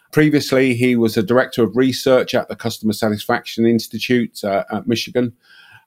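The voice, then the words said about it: British accent. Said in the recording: “Everything sounds better with a British accent”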